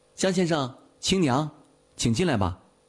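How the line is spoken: Raised voice calling. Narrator (Chinese): 扬声叫道

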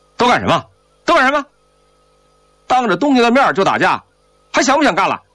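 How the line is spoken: Stern shout. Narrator (Chinese): 宋怀仁厉声喝道

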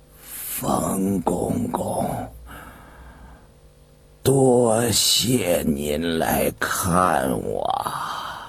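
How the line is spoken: Weak, struggling voice. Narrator (Chinese): 张居正 挣扎着开口说话了，只是声音微弱

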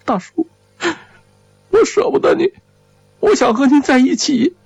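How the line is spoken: Crying aloud. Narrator (Chinese): 张幼林哭出了声

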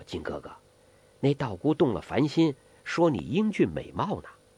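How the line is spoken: Low voice. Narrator (Chinese): 黄蓉低声地说

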